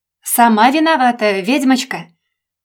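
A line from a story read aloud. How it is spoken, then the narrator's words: Shouted across house. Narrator (Russian): Прокричал через весь дом мне Женя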